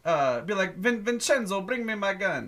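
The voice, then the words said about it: Put-on Italian Brooklyn-style accent. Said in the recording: “Italian accent ... it would just be like a Brooklyn accent”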